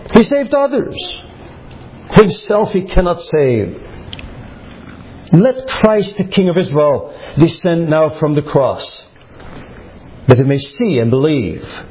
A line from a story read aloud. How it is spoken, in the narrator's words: the chief priests, mocking, said among themselves with the scribes